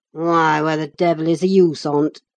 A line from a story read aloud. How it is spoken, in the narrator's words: growled Hareton